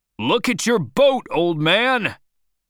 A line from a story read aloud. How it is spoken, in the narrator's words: Starbuck cried out